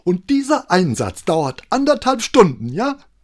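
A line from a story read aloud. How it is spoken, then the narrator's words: Angry question. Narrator (German): fragte sie wütend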